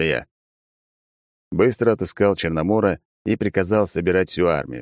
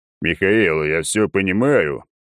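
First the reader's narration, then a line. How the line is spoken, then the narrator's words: Low booming voice. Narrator (Russian): прогудел он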